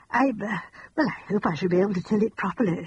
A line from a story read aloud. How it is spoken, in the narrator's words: she said anxiously